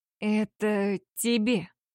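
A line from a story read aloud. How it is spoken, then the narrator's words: Muffled, dull voice. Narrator (Russian): проговорил он глухо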